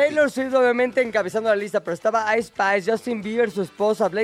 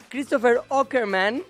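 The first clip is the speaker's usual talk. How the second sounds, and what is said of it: Name said in American accent. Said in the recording (Spanish): “que lo digo con acento gringo”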